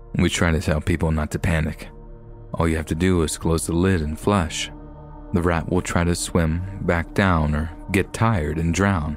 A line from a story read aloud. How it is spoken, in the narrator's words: Pace said